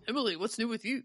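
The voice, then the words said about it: Imitating the co-host's voice. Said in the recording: “doing your voice.”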